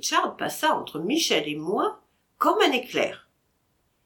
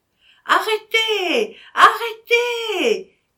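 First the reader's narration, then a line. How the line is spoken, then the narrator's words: Woman crying out. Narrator (French): criait la femme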